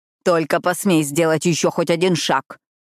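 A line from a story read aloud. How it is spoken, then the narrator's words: Growl. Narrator (Russian): прорычала она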